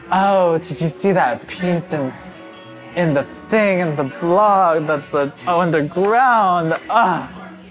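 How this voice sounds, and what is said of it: Impression of a Brooklyn hipster. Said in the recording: “Is that your impression of somebody from Brooklyn?”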